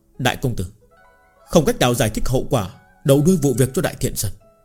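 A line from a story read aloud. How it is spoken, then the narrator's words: Quiet reminder. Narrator (Vietnamese): Thiệu Tam Tỉnh nhỏ giọng nhắc nhở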